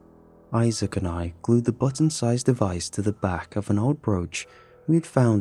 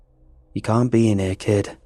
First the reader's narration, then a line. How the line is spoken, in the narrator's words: Miss Gatlin said in a gruff voice